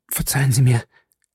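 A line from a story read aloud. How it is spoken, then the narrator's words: Stammering apology. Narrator (German): stammelte ich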